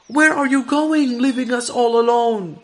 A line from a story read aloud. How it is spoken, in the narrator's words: shouted